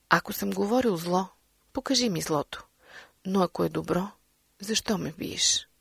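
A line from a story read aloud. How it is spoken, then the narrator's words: Calm. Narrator (Bulgarian): Христос отговори спокойно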